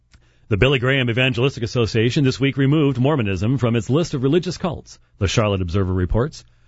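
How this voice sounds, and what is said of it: Radio announcer voice. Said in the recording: “I'm going back to my radio days here ... doing my radio voice here, because I was a radio guy for a long time”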